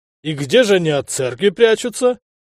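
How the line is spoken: Host laughing loudly. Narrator (Russian): расхохотался хозяин

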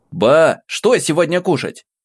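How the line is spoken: Shouted. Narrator (Russian): крикнул я

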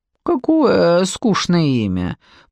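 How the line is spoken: Creepy king's drawl. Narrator (Russian): протянул жуткий король

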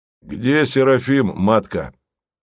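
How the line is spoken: Gloomy question. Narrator (Russian): мрачно спросил один из жандармов

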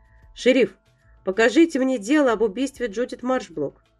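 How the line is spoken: Commanding, bossy tone. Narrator (Russian): начальственным тоном произнес Брокс

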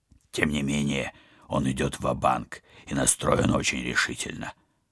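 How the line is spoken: Grumbling. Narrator (Russian): проворчал Вадим

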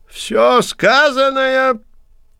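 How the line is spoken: Thin-voiced priest shout. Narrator (Russian): тонким голосом выкрикнул первый жрец

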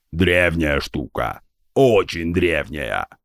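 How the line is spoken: Booming from around corner. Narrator (Russian): прогудел из-за угла Гундахар

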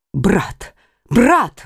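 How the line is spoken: Exclaiming. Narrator (Russian): воскликнула Маргарита

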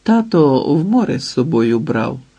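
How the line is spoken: Gentle. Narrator (Ukrainian): сказала лагідно

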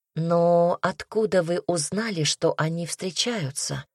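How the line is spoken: Gentle question. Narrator (Russian): мягко спросила Настя

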